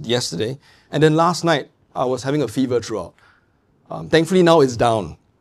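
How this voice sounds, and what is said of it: Weak, failing voice. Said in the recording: “I'm actually not so well... this time my voice is a bit going already... I caught a bug and I was coughing quite a bit”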